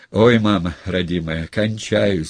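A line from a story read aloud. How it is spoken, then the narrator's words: Moaning big lad. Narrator (Russian): стонал детина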